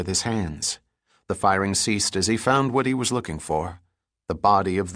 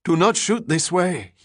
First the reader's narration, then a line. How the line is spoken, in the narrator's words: he pleaded in a weak voice